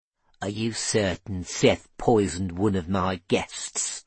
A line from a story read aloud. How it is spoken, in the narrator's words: Norrie hissed